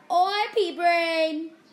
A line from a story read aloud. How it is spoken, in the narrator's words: yelled Ron from the other side of the chamber